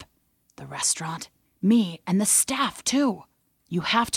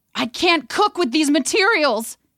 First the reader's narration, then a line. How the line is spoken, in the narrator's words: he shouted